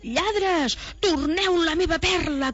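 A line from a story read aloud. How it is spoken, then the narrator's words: Dragon shouting. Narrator (Catalan): cridava el drac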